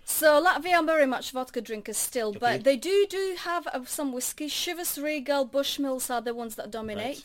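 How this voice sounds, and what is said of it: Latvian accent. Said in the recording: “where's your accent from? Cause it's a wonderful accent you've got there ... I'm coming from Latvia.”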